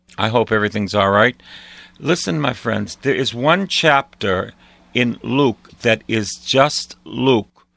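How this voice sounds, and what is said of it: Slightly hoarse, husky voice. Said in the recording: “I have a little frog in my throat.”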